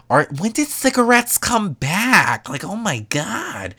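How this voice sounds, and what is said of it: Poor impression of Gina. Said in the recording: “That was a terrible impression.”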